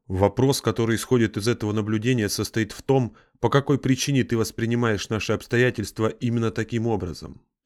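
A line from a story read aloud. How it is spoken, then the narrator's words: Plain. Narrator (Russian): спросил Игнис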